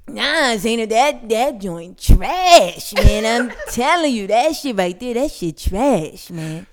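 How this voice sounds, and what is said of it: Impression of her brother's voice. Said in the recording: “say it in the voice that you said in my album. So do his voice. Do your brother one time. do your brother. Do his voice.”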